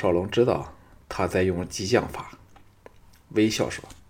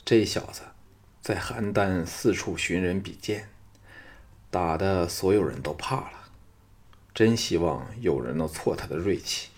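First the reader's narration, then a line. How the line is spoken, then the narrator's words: Low voice. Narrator (Chinese): 低声说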